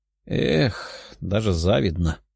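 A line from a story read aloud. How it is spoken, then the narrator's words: Mumbling. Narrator (Russian): бормотала она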